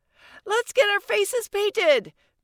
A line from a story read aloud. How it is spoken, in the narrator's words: Mina shouted